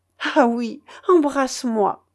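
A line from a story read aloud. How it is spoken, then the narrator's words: Sobbing exclamation. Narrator (French): s'écriait-elle en sanglotant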